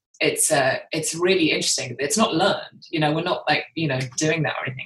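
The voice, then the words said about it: British accent. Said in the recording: “I'm the one with the British accent.”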